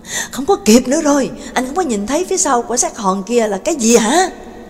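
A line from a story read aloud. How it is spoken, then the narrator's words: Yelling. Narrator (Vietnamese): Sin gào lên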